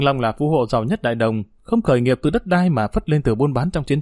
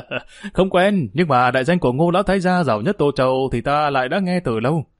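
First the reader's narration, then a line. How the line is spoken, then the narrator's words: Laughing loudly. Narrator (Vietnamese): Vương Long cười lớn đáp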